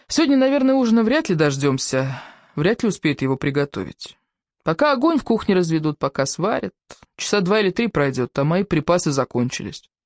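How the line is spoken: Sighing woman. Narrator (Russian): И вздохнула

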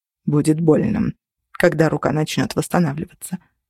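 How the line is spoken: Hoarse rasp. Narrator (Russian): прохрипел Тейт

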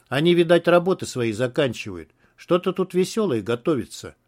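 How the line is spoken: Plain. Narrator (Russian): сказал Журавлев

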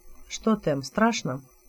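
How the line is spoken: Quiet question. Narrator (Russian): Тот негромко спросил

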